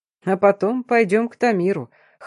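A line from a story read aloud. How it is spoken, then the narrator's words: Resigned order with snort, father. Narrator (Russian): хмыкнув, сдался папа распорядился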